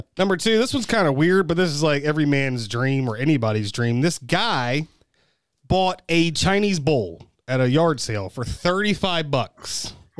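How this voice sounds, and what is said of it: American regional Mid-Atlantic accent. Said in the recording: “Like, stupid accent ... That's my Kentucky, Maryland, Virginia... PA ... accent”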